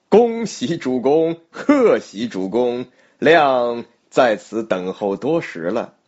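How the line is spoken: Laughing. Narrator (Chinese): 一人大笑而出，说道

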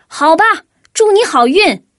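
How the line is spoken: Furious shout. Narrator (Chinese): 多兹简直都要气疯了，他大喊了一声

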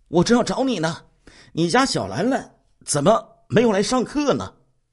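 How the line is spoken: Asking. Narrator (Chinese): 吴老板询问

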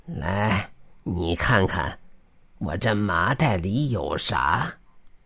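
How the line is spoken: Smiling, calm. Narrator (Chinese): 乞丐笑着，对着他淡淡说道

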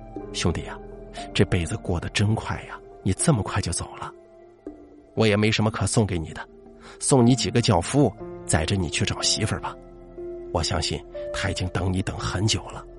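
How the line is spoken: Murmuring to himself. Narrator (Chinese): 口中喃喃自语

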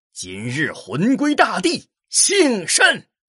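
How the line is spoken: Sudden loud cry, exhausted. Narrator (Chinese): 那人眼看体力不支，突然大叫一声

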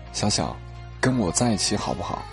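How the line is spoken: Soft whisper in ear. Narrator (Chinese): 小严叔叔就在我耳边轻声的说了一句

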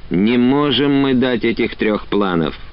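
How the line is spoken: Weary protest. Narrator (Russian): уже устало отбивались Кружилин и Савельев

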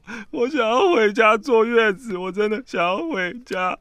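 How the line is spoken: Crying. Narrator (Chinese): 我就一直哭说

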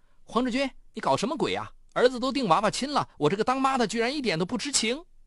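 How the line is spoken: Loud yelling. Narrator (Chinese): 曹丽一下班回来就大嚷道

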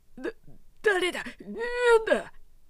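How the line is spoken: Frightened shout. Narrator (Japanese): 男はこう叫びながら及び腰になって

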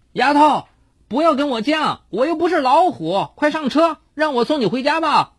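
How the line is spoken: Shouting over rain. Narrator (Chinese): 男孩在雨幕中冲他大喊

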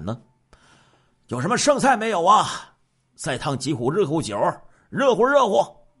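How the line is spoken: Loud shout. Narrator (Chinese): 董超 大声的喊

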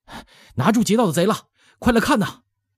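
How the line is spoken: Breathless shouting crowd. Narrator (Chinese): 无数人在说话吵叫，还夹着小孩子吧唧吧唧的跑步声，气喘吁吁的喊叫

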